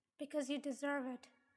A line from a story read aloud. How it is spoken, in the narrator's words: said coldly